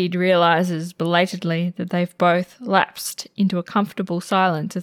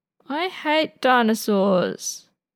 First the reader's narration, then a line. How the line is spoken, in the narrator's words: Frenchie whines, appearing rather frazzled